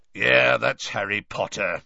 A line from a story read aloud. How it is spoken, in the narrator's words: said a growling voice from behind them